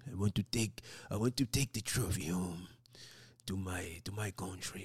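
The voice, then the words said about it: Odd put-on accent, not quite French. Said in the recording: “I don't know what kind of accent that is. To my country, that ain't French. I don't know what it is”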